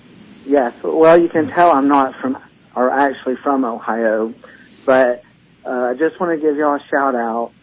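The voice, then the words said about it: Regional accent, not from Ohio. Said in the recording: “I know you're on the phone because I can hear that accent.”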